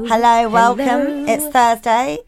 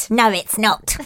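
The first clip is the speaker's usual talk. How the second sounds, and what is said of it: Weird witch voice. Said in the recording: “that weird, like, witch voice”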